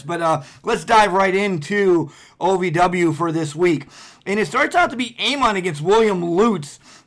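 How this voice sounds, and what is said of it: Hoarse, strained voice. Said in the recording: “I'm so excited I'm losing my voice. I was screaming all night”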